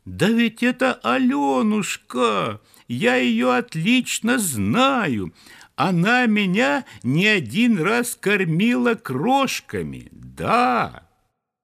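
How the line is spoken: Joyful squeaking. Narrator (Russian): другие воробушки тоже страшно запищали от радости

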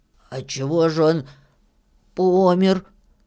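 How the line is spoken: Hoarse question. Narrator (Russian): хрипло спросил Филька

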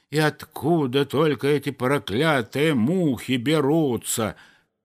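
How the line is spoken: Grumbling kindly gardener. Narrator (Russian): ворчал добрый садовник

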